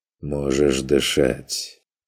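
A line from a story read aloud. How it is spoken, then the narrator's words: Muffled, strained, exhausted voice. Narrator (Russian): расслабившись, тяжело и шумно выдохнул, проговорил, глухо и сдавленно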